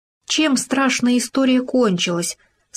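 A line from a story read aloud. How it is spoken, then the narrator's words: Plain. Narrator (Russian): сказал суслик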